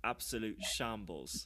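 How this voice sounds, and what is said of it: Put-on British accent. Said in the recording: “I could do British sometimes. ... let's hear a British accent”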